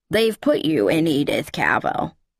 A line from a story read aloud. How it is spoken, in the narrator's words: she croaked at the top